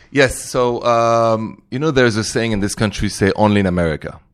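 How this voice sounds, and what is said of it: French accent. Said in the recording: “very Parisian ... I love the accent.”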